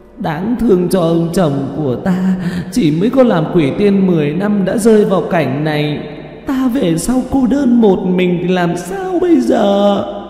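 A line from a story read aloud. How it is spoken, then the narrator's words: Sobbing female ghost. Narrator (Vietnamese): Nữ quỷ tay che mặt mà khóc thút thít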